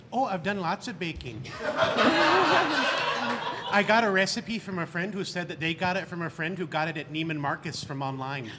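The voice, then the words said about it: Put-on Minnesotan accent. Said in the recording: “talk about cookie recipes in your best Minnesotan accent”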